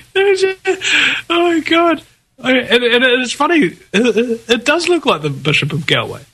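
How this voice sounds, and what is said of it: Usual voice. Nothing is said of it.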